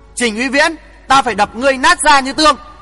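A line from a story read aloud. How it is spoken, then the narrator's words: Shout. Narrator (Vietnamese): Hoàng Thượng Chí quát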